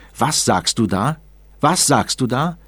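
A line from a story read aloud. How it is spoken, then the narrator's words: Roared into his face. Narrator (German): brüllte ihm mitten ins Gesicht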